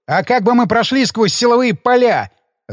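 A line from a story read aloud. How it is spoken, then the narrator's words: Snapping retort. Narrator (Russian): огрызнулся я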